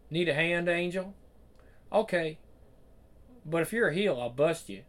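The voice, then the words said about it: Put-on Southern US accent. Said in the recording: “Do I need to put on a southern accent? Because I have one.”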